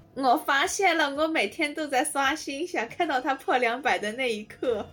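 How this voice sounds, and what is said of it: Put-on accent. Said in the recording (Chinese): “请你把你的口音切回来”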